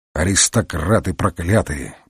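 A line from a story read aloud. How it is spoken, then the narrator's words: Grumbling. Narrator (Russian): бурчал он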